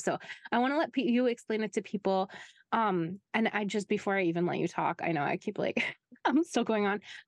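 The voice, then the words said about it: Hoarse, strained voice. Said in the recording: “losing my voice ... she sounds really weird today ... My voice is funny today. It's been funny all week”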